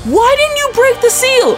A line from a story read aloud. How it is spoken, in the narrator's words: she screams and goes